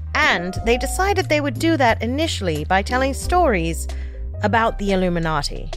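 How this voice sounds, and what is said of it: Put-on BBC British accent. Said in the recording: “my best BBC impersonation”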